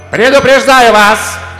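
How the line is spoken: Angry shout, queen. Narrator (Russian): крикнула королева, топая ногами

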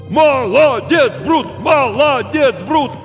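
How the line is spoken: Crowd shouting. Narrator (Russian): снова закричали зрители

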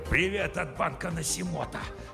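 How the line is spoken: Hiss. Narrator (Russian): Прошипел он

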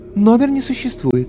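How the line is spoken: Melodic female voice. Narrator (Russian): неожиданно мелодичным женским голосом сообщила

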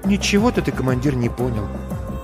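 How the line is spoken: Quiet. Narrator (Russian): тихо говорит Маринка

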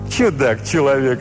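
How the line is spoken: Laughing. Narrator (Russian): рассмеялся столпник

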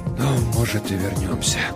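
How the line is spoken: Barely audible whisper. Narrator (Russian): прошептал он так тихо, что я едва расслышал

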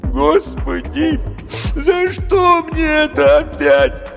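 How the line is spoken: Sobbing. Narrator (Russian): прорыдала Галина

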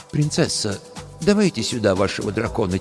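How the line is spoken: Quiet. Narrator (Russian): тихо сказал сенешаль

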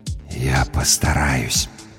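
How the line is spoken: Barely audible. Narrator (Russian): едва слышно сказала наконец смерть

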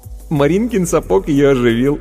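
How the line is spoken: Giggling boy. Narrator (Russian): хихикнув, сказал Вовка

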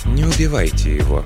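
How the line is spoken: Quiet, calm voice. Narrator (Russian): тихим, спокойным голосом произнесла она

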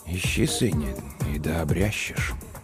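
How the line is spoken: Very quiet, to himself. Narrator (Russian): Он ответил тихо-тихо, словно самому себе

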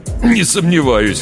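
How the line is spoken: Amused snort. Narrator (Russian): хмыкнул Питер

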